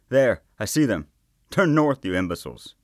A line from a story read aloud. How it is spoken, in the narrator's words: Someone shouted